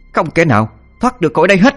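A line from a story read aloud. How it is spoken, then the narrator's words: Shouted incantation. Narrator (Vietnamese): nó niệm chú hét lên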